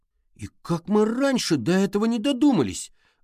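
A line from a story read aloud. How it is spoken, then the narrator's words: Exclamation. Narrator (Russian): воскликнул Олли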